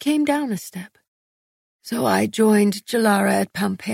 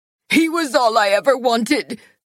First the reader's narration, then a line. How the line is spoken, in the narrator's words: she screamed